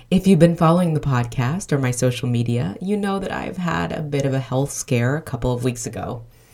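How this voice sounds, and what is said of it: Low, congested voice with cold. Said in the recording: “I have a bit of a cold, and so my register is super low.”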